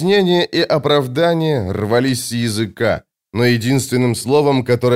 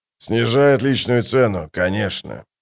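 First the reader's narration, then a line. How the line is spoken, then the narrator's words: Muffled answer. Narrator (Russian): ответил Скворец приглушенным голосом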